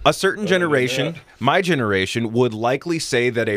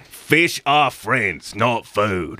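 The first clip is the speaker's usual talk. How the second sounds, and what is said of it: Gravelly Australian accent character voice. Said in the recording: “a rather gravelly Australian accent ... my name's Bruce ... that's the Finding Nemo shark”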